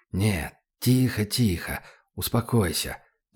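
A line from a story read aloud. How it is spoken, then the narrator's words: Persuasive whisper. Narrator (Russian): зашептал Добрынин, вкладывая в голос как можно больше убедительности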